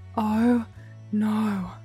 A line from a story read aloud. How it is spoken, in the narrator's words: Bentley breathed